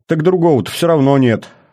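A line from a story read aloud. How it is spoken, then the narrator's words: Snorted. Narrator (Russian): фыркнул Кобрин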